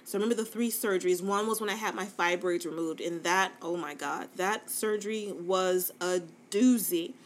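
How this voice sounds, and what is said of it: Fast, stuttery speech. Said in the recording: “I don't know why I'm so stuttery right now. I think I'm talking too fast”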